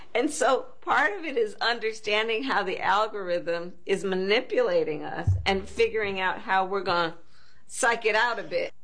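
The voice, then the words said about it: Put-on Southern accent, giggling. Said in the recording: “I'll go and psych it out a bit, where she brings her accent ... what's this Southern accent she's dropping on this podcast? ... she's just chuckling and giggling through all this”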